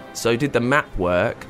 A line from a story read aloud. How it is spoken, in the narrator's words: asked Mr